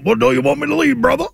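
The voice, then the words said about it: Cajun voice imitation. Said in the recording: “in that Cajun voice”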